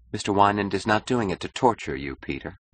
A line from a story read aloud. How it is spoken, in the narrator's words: said Dominique calmly